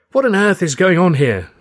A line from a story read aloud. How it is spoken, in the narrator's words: cried